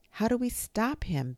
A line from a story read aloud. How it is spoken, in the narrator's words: Benny cried